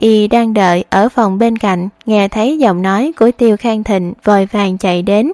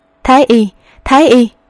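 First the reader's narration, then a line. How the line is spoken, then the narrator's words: Loud shout. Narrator (Vietnamese): Tiêu Khang Thịnh lớn tiếng quát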